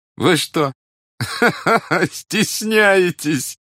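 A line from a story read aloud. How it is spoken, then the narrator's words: Laughing. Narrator (Russian): засмеялся князь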